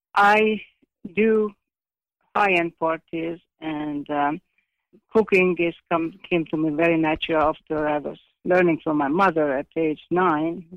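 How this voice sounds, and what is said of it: Speaks with a foreign accent. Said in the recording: “my accent, which never leaves me”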